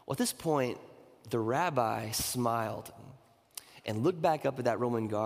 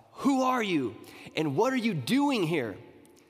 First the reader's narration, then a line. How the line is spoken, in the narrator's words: this Roman guard again yelled down at this rabbi